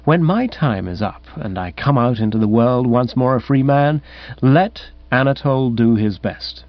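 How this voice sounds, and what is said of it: Softer voice. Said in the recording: “in a softer voice”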